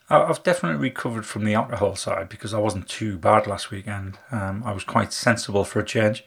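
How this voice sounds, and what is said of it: Husky voice, sore throat. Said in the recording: “my voice is a little bit husky at the moment. A little bit of a sore throat, purely through talking so much this week.”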